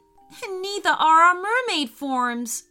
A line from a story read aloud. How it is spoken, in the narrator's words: cried in horror